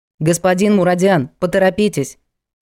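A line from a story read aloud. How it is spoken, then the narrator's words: Sharp shout, lawyer. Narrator (Russian): прикрикнул на него адвокат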